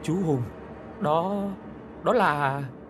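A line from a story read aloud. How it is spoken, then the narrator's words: Trembling, stammering. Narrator (Vietnamese): run rẩy, giọng lắp bắp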